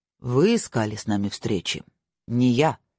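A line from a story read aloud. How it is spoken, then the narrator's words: Cold, armored man. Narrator (Russian): холодно произнес человек в черных доспехах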